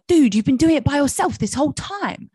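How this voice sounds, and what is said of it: Poor imitation of British accent. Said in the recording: “he's really super British ... that's definitely not his accent.”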